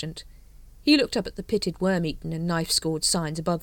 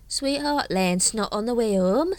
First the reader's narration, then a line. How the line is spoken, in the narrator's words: slurred Nobby